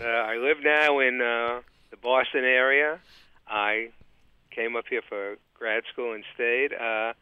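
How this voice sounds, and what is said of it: New York accent. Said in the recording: “I'm trying to nail down your guest accent. I say he's from somewhere in Long Island ... I'm from actually Brooklyn, New York ... I can't shake some of the accent”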